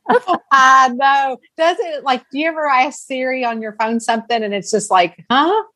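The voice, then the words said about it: Strong regional accent. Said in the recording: “with your accent and my accent, we may need a translator”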